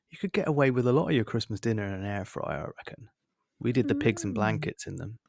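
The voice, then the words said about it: West Country drawl. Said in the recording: “That's a nice West Country drawl there... It's still in my system”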